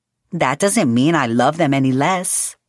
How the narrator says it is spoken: Maritza cooed

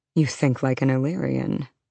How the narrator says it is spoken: Rhys murmured

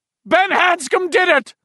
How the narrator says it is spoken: the voice screamed

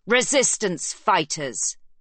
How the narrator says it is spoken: he yells back

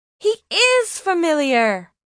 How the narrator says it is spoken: said Hannah triumphantly

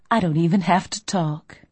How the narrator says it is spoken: I purred

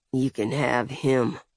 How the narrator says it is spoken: Hugh said under his breath

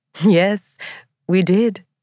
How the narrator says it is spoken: Grace said with a laugh

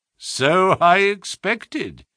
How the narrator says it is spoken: said Holmes, chuckling

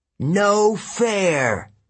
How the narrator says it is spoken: the Sphinx wailed

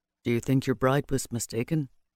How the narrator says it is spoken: Keeler asked quietly

